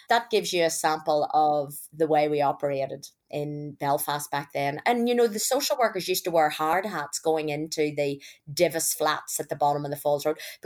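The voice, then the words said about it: Irish accent. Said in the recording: “my accent's clearly Irish”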